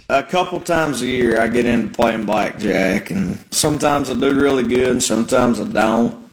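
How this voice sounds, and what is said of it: Heavy Southern accent. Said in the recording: “that strong Southern accent ... it is so, so heavy”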